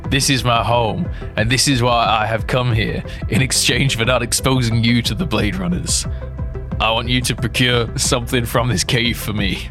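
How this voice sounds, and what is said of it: Raspy character voice. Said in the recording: “The replicant replied in a raspy tone.”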